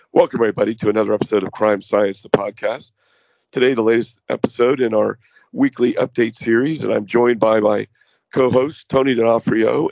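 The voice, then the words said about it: Hoarse voice. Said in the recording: “What's not going well is my voice. I'm very hoarse. I did have a cold.”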